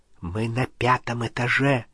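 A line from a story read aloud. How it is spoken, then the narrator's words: Whispered. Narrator (Russian): прошептал он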